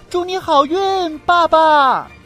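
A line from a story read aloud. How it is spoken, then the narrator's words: Loud shout. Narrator (Chinese): 贝尔大喊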